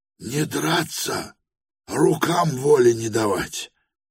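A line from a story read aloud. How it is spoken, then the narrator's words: Hoarse reply. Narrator (Russian): сипло отвечал помещик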